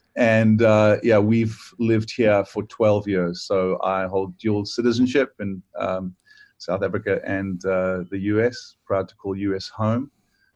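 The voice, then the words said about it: South African English accent. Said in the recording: “what the accent is ... I grew up South African. This accent, my friends do tell me, it makes me sound smarter than I am.”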